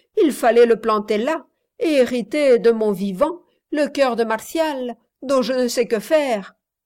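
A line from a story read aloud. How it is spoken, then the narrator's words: Laughing. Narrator (French): dit Reine en riant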